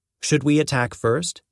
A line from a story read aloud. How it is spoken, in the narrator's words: Ahab asked